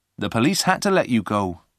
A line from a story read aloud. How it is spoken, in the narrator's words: replied Peter